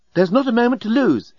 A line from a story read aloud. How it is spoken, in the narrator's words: exclaimed the female alien